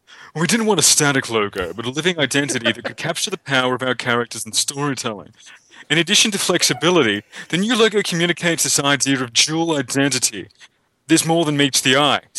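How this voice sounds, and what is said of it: Slick official marketing voice. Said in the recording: “I put on my official marketing voice”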